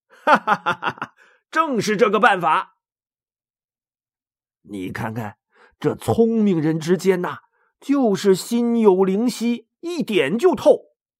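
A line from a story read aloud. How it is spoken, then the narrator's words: Hearty laughter. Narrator (Chinese): 郭嘉哈哈大笑说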